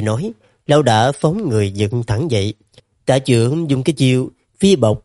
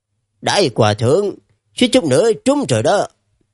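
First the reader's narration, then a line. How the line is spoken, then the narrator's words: Sneering, hiding fear. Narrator (Vietnamese): Trong lòng không khỏi âm thầm kinh hãi, nhưng mà ngoài miệng lại cười khẩy, buông ra một câu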